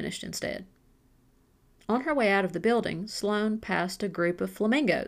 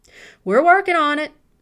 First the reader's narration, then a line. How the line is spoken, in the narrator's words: Rick yelled from the back